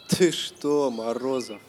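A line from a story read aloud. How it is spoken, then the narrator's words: Laughing through pain. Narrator (Russian): засмеялся политрук, скорчив гримасу боли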